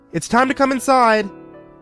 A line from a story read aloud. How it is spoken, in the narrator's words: I called out to him